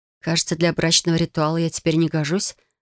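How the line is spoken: Soft, placating reply. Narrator (Russian): ответила мягко, чтобы не разозлить его

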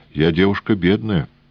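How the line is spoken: Colonel snorting. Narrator (Russian): полковник хмыкнул

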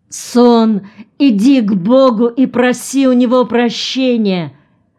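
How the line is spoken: Hoarse shout. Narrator (Russian): охрипшим голосом закричала Пыльмал

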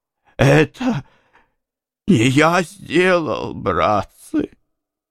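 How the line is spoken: Sobbing. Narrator (Russian): проговорил он, всхлипывая

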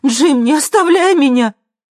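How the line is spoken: Screaming. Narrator (Russian): Хелен закричала

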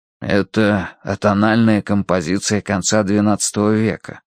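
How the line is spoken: Whispered reply. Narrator (Russian): прошептал в ответ Данворти

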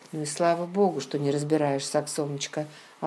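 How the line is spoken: Plain. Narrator (Russian): ответил он

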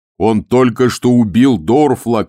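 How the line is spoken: Shout. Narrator (Russian): крикнул Муркоу

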